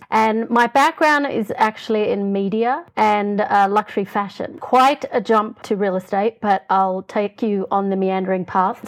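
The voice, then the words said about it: Australian accent. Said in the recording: “the funny accent... I wish I could say I'm a Kiwi, but I'm not that sexy. I'm an Australian”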